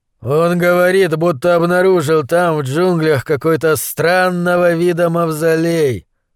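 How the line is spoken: Gloomy grumble. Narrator (Russian): мрачно нахмурившись, буркнул Хасим

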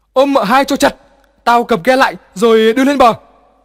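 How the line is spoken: Panicked shout. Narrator (Vietnamese): Hoảng quá, Hai Hùng hét

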